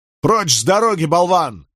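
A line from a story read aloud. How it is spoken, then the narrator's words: Barking shout. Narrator (Russian): рявкнул Николас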